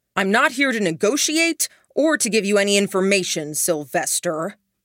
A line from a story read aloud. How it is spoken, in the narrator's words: Duncan said, raising his voice